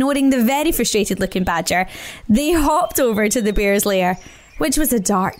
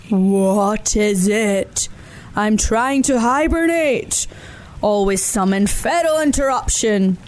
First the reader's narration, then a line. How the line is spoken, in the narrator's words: he grumbled